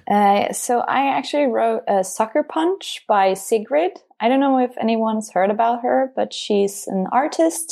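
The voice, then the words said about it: Pleasant, soothing accent. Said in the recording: “your beautiful accent ... Every time you speak, I'm just like, oh, so nice.”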